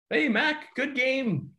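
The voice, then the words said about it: Put-on German accent. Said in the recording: “like in the German accent”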